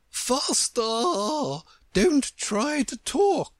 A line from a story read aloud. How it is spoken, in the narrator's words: the Queen cried